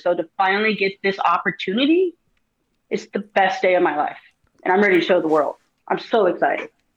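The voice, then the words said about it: Emotional, holding back tears. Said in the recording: “I get a little emotional just even kind of talking about and trying to hold it together right now.”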